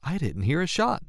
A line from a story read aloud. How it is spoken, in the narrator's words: said Lisa, nervously